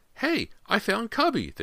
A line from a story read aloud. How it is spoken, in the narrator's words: they heard James exclaim